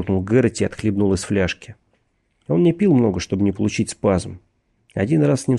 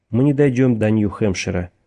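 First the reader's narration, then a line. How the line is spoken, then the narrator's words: Gloomy. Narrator (Russian): мрачно сказал Бейкер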